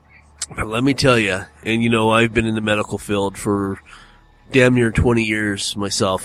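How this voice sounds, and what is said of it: Voice still sounds sick. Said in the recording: “I couldn't breathe ... you heard me doing a lot of coughing and grunting ... I had a hard time breathing. My throat was itchy ... you can probably hear it in my voice. I'm not completely better”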